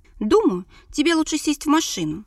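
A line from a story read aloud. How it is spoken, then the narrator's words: Shouted through open window. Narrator (Russian): прокричал Шаров в открытое окно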